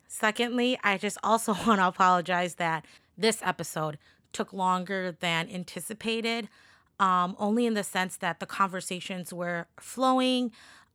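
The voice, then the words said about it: Raspy, sick-sounding voice. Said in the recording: “sorry for my voice. I've been a little sick, so my voice is just really raspy”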